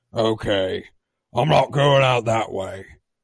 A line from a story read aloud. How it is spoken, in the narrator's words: Wrecker groans and explains